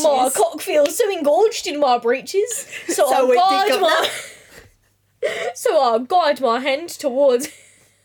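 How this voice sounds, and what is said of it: Exaggerated put-on East London accent. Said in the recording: “You did it such a thick accent ... You're fucking it up. Well, it's Australian. ... trying to do like the most East London that I can ... That's too far east.”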